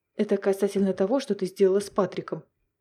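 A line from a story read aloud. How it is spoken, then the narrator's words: Calm. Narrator (Russian): спокойно произнес Финн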